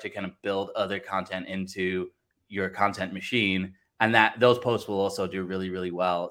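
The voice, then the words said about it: Faint English accent, Americanized. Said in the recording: “I thought there was something British in that. I thought there was something somewhere English. I couldn't have picked out Blackpool though”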